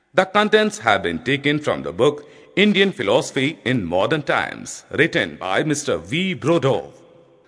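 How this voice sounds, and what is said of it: English with an Indian accent. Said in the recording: “I am presenting my demo in English, spoken in Indian accent.”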